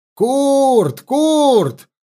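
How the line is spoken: Loud distant shout. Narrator (Russian): заорал Лёшка в сторону башни

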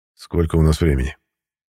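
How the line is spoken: Quiet question. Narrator (Russian): негромко спросил Судоплатов

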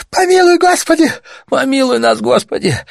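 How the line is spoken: Moaning woman. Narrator (Russian): застонал еще другой, женщина

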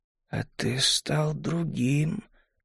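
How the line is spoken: Slow, female. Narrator (Russian): медленно произнесла она

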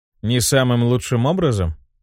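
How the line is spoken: Cold question. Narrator (Russian): холодно переспросил

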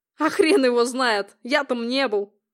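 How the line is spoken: Short laugh. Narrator (Russian): хохотнул он

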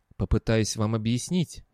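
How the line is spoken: Soft gentle speech. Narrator (Russian): мягко проговорил он

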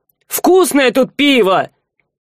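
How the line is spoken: Near shout, attention-grabbing. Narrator (Russian): Сива почти выкрикнул, привлекая внимание хозяина кормильни

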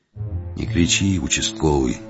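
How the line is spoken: Low, muffled. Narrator (Russian): глухо ответил старший стрелец

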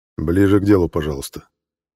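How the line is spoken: Quiet, level voice. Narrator (Russian): негромко произнес глава гильдии

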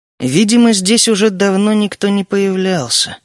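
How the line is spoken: Tired. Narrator (Russian): устало прокомментировал я

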